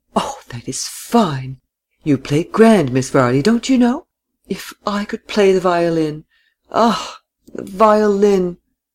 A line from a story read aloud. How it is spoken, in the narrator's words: Miss Seifert exclaimed continually